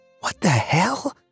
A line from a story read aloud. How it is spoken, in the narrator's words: Saul whispered